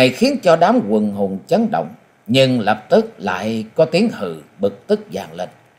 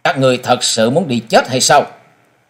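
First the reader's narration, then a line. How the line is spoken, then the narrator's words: Cold. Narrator (Vietnamese): Mỹ thiếu niên lạnh lùng nói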